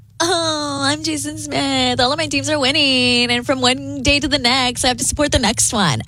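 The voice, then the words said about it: Valley Girl style mocking impression. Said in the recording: “why are you going Valley Girl with my impression? ... that's not how I sound.”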